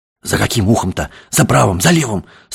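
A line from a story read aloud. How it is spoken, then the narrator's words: Hoarse, tense, frightened question. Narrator (Russian): спрашивал другой голос, тоже сиплый и напряженно испуганный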